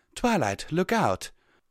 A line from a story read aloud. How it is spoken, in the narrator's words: Rarity cried out